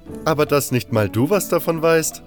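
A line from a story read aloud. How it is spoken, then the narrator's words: Laughing. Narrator (German): lachte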